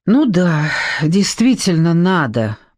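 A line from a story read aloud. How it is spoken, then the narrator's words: Old woman, heavy sigh. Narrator (Russian): подтвердила бабушка, тяжело вздохнув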